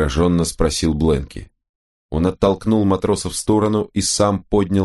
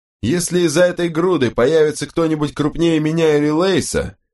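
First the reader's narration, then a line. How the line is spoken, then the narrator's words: Shouting over the wind. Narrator (Russian): прокричал он в ухо Хэндфорду, перекрывая вой ветра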